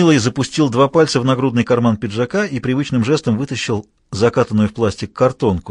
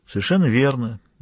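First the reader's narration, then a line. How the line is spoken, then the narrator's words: Bored, indifferent. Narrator (Russian): мистер Дикинсон поддержал Хью скучным, безразличным голосом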